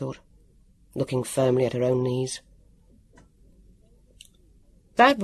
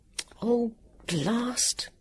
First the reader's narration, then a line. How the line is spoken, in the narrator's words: Vivian muttered